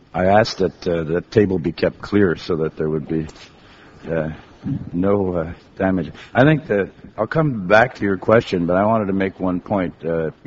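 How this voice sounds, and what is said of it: Congested, sick-sounding voice. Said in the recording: “tell from my voice that I have a cold.”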